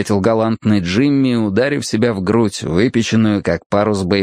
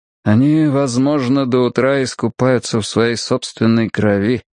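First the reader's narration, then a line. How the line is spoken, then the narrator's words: Flat colorless voice. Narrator (Russian): бесцветным голосом сказал Кин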